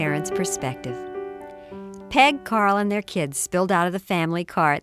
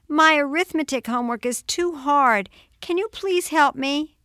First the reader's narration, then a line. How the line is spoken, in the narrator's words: she pleaded